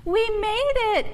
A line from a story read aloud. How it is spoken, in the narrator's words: Ava exclaimed